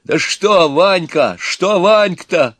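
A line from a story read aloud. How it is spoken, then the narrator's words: Exclaimed. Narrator (Russian): воскликнул Иван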